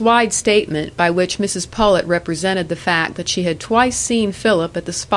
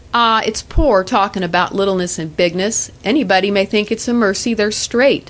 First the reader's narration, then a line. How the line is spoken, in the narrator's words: said Aunt Pullet